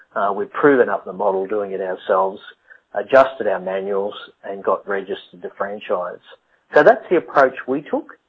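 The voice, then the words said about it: Australian accent. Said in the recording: “A funny accent you say, yes, I'm Australian”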